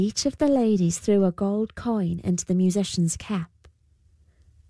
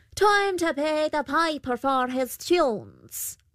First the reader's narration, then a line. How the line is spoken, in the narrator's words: The Pooker called out